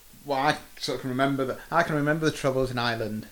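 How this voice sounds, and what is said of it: Put-on Irish accent. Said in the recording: “That was my Irish accent.”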